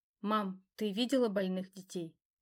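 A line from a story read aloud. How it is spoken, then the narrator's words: Quiet question. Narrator (Russian): тихо спросила я ее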